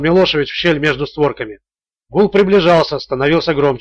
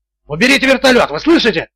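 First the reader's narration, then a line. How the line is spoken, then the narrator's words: Yelling. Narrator (Russian): вопил Милошевич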